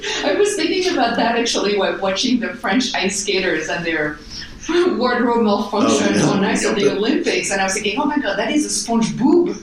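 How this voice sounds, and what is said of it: Foreign accent, apparently French. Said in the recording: “you may have deduced from my accent that I am not from these parts ... I thought SpongeBob started in Paris.”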